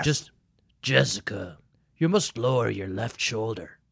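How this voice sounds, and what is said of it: Gravelly voice, faint Irish accent. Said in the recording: “gravelly ... gravitas and the slight, almost implacable Irish accent ... really good impersonation ... such a good Liam Neeson impersonation”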